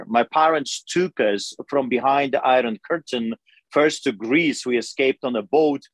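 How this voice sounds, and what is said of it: Foreign accent, Eastern European immigrant. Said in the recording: “as you can tell by my accent, I emigrated here”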